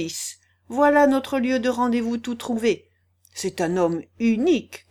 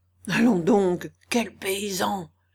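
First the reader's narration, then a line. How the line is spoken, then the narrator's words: Quiet, hushed. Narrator (French): lui dit aussi tout bas Tchitchikov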